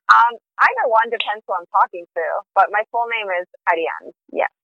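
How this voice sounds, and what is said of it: Speaks with a beautiful foreign accent. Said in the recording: “You say that with a beautiful accent.”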